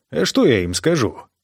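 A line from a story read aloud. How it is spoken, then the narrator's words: Grumbled. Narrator (Russian): проворчал Арктер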